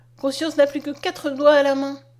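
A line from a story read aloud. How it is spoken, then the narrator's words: Exclaiming. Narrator (French): s'écria-t-elle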